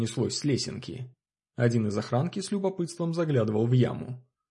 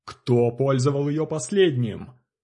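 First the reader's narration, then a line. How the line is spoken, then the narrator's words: Growl. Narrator (Russian): рыкнул Чоп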